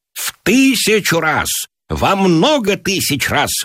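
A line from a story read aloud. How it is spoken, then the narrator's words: Exclaimed. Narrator (Russian): выкрикнул Гиберн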